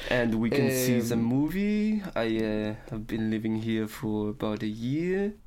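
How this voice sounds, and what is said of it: Put-on French accent in English. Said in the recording (Danish): “den franske accent ... Var den stærk? Det var meget charmerende ... helt generelt udlænding, der snakker engelsk”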